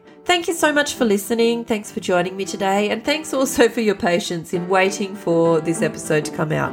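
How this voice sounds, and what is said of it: Voice affected by a cold. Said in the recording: “as you can probably hear from my voice, I am still now just recovering from a cold”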